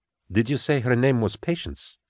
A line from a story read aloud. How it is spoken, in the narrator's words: Kara asked quietly